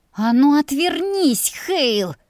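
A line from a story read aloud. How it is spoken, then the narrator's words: Hissed through gritted teeth. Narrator (Russian): Процедила сквозь зубы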